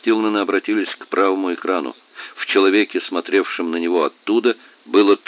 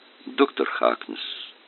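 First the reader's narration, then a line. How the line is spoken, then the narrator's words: Soft. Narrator (Russian): мягко произнес Стилман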